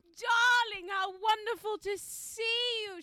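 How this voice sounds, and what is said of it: Extravagant theatrical voice. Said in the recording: “they used to put on the most extravagant, like, kind of theatre voice”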